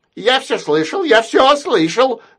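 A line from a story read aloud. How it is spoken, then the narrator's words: Shouted by a parrot. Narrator (Russian): закричал попугай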